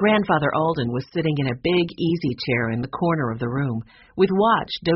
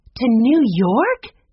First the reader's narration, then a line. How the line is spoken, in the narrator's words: Jessie cried out, hardly believing what her grandfather had said